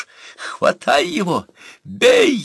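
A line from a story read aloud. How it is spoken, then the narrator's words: Shrill squeal. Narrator (Russian): взвизгнул Буса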